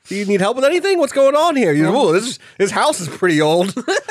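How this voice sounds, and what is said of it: Character voice for a ghost. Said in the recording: “My impression of Daryl”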